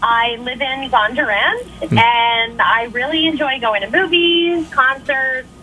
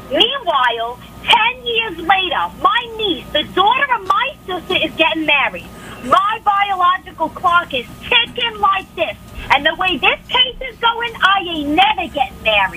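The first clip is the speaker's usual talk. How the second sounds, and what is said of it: Imitates another person's voice. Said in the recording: “Best celebrity impression ... Marissa Tomei from My Cousin Vinny”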